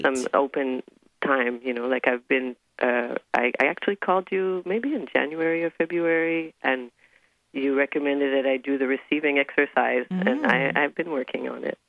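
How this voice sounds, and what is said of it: Slightly hoarse voice. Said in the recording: “my voice is a little hoarse because I last minute went to a farewell party last night”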